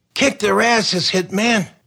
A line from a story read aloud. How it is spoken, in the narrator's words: hollered